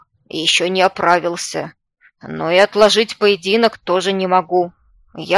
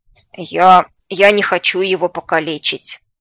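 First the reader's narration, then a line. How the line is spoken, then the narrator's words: Snort. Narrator (Russian): Фыркнул уже и Мир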